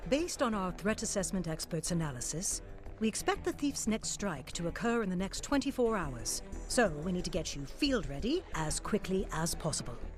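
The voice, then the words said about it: Unusual put-on accent. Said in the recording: “that accent is seriously freaking me out”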